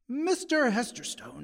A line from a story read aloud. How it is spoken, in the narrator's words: his visitor snapped